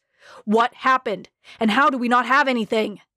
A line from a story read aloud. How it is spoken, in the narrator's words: snapped